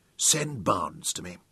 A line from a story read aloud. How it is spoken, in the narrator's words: he told his secretary quietly